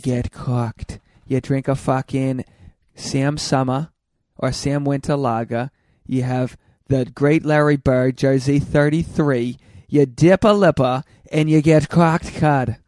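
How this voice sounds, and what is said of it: Put-on Boston accent, overdone. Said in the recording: “I've been told I do a decent Boston accent ... I think it's sounding worse and worse. It was pretty good in the beginning, but now you're just trying too hard.”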